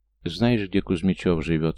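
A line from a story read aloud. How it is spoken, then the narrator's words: Calm question. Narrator (Russian): спокойно уточнил Гоша у Тамерлана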